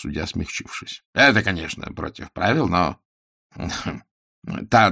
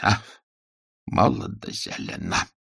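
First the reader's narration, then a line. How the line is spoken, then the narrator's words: Sentimental sigh. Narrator (Russian): вздохнул он сентиментально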